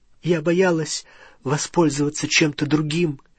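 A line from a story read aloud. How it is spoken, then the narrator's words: Trembling voice. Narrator (Russian): дрожащим голосом произнесла Гермиона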